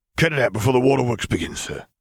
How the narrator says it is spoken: the clone grumbled

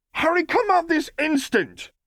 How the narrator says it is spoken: yelled Hermione

